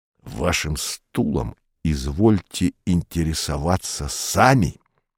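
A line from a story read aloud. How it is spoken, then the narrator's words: Growled. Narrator (Russian): прорычал он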